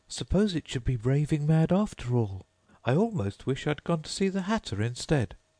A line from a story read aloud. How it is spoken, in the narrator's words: rather timidly, saying to herself